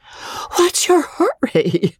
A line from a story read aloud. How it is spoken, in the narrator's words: wheezed that lady, puffing up the steep cinder path